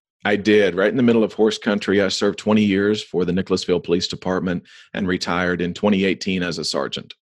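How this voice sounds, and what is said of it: Rural central American accent. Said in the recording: “your accent, you are central, rural, middle America”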